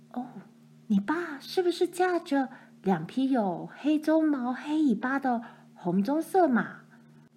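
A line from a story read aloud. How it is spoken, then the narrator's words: Plain. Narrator (Chinese): 克里斯蒂问他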